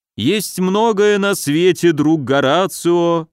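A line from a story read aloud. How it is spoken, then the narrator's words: Playful mock-sepulchral drone. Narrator (Russian): за могильным голосом прогудел Поплавский, дурачись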